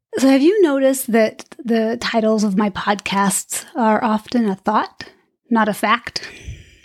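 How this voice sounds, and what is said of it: Slightly raspy voice. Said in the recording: “my light voice is a little raspy today”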